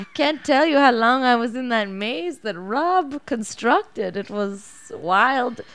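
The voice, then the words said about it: Put-on Norwegian accent. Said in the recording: “do your crew voice? ... here's my like Norwegian extra.”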